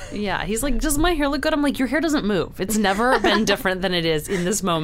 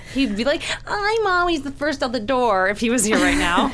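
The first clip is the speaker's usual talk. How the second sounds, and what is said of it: Imitates another person's voice. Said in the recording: “I love your voice that you do when you impersonate him ... sounds nothing like”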